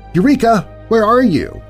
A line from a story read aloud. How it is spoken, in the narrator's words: called out